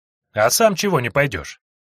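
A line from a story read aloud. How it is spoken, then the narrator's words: Displeased mutter. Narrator (Russian): недовольно пробурчала Сойка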